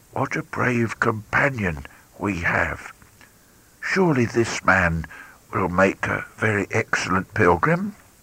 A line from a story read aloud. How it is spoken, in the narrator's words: he said to him softly